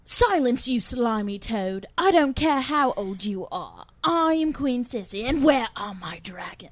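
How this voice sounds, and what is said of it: Put-on British accent. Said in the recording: “She actually did a Cersei voice ... Give us a little taste of your British accent.”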